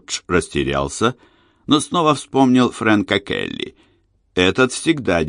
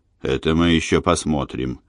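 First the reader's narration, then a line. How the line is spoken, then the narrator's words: Grim. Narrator (Russian): мрачно сказал Джордж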